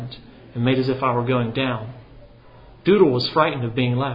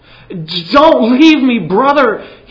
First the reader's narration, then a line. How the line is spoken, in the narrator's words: he cried